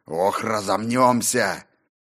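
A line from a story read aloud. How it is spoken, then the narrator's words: Loud bark. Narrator (Russian): гаркнул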